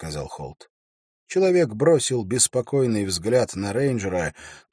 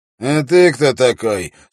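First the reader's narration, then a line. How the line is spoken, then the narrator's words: Rough prisoner. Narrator (Russian): спросил пленник грубо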